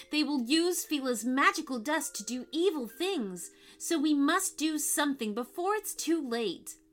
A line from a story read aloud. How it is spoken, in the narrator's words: cried Mia